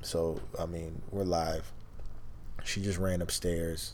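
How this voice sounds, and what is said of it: Hushed, quiet speaking voice. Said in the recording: “the reason why we're talking, like, in this small tone is because we just put the kids to bed and we're trying to keep it quiet”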